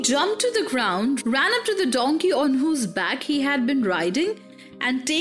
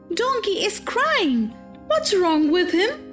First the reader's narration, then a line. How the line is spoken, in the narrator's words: cried Pinocchio